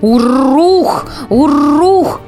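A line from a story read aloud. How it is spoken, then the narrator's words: Animal growl. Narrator (Russian): Ягуар снова прорычал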